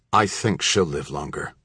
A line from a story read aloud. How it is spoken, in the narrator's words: he added in a resolute tone